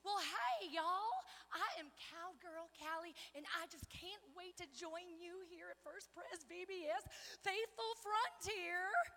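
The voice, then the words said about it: Put-on Wyoming cowgirl accent. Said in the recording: “I hail all the way from the great state of Wyoming. I knew you knew that from my accent.”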